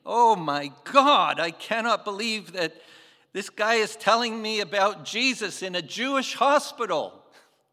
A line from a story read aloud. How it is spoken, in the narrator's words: screaming